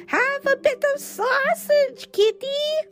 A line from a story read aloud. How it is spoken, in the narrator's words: He screeched